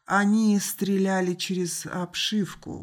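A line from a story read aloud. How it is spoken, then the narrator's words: Muffled, hollow voice. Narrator (Russian): глухо сказал Алан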